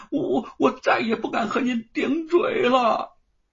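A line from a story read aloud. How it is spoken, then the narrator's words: Loud wailing, farmer. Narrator (Chinese): 庄稼汉大声的哭嚎着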